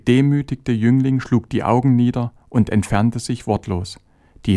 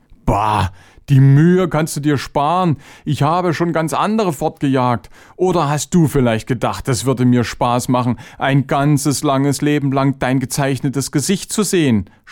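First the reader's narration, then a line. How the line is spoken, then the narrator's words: Mocking. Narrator (German): spottete Chavenes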